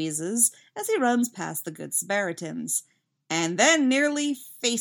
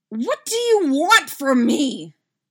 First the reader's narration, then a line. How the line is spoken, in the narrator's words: Dustin screams